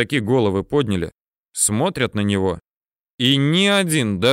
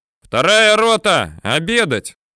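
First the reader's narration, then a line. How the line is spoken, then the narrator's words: Young cook shouting. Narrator (Russian): Прибежал молодой поваренок и крикнул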